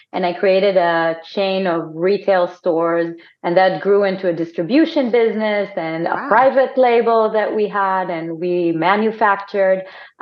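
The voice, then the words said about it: Israeli accent. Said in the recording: “I'm Israeli for my accent”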